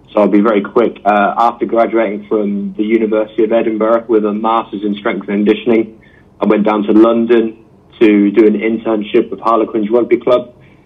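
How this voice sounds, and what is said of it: English accent. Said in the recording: “if you can't tell from my accent, I'm from England”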